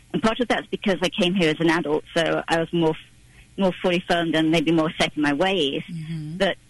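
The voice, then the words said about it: English accent. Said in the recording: “I still have my accent ... I think the English accent is sexy, or you sound so intelligent”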